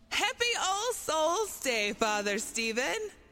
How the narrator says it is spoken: she shouted with a grin from ear to ear

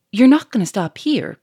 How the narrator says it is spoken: cried Lupin

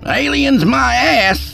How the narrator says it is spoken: Skeet hollered

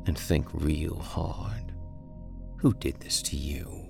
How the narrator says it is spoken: The orc moaned, understanding at last

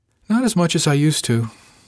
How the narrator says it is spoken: said with a little sigh

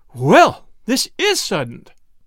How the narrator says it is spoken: exclaimed Mrs

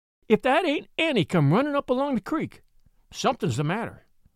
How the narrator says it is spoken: cried Maggie Charlesworth

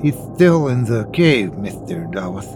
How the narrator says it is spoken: Alicia, a dark-haired girl who was missing her front teeth, lisped

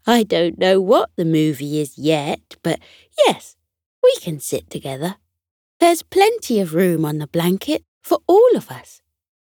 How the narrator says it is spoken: Sunny chuckled softly and said

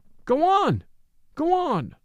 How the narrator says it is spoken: the people cried

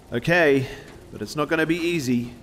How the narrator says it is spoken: yelled Brian

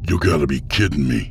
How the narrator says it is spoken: Boswick snapped

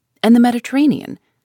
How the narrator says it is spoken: said the Canadian, in a slightly jovial tone

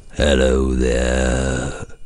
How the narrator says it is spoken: growled Scrooge in his accustomed voice, or as near as he could pretend it

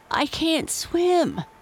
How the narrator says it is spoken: he choked

